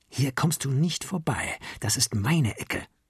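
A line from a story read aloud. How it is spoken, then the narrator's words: Hissing. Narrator (German): zischte er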